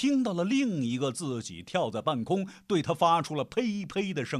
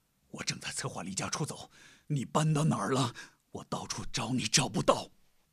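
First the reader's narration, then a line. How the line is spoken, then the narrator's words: Whisper in ear. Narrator (Chinese): 又在他耳边轻声说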